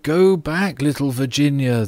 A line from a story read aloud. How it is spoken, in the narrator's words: they cried